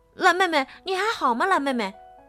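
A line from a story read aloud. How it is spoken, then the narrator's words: Loud shout. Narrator (Chinese): 大声喊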